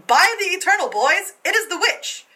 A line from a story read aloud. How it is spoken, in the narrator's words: General Jackson exclaiming